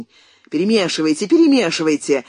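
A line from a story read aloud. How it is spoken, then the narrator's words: Irritated command. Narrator (Russian): раздраженно приказал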